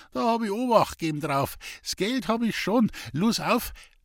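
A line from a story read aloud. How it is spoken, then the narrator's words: Speaking through laughter. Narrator (German): vor Lachen vermochte sie kaum zu sprechen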